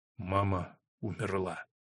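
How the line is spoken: Whisper. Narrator (Russian): прошептал он

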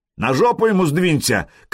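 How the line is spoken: Shouted. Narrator (Russian): крикнул Хузарин

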